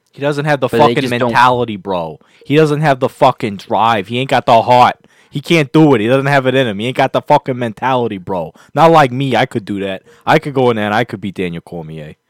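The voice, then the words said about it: Put-on accent that keeps shifting. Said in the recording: “don't know what that accent turned into. It changed throughout the entire monologue there”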